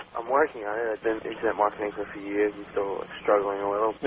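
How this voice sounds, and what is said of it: New York accent. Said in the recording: “You got that New York accent going.”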